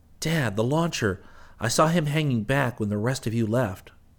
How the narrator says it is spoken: Rick exclaimed

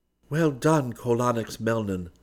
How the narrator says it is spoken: Dunark said warmly

